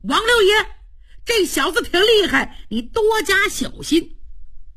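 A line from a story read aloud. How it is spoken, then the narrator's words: Young man shouting. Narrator (Chinese): 英雄会的儿郎也高喊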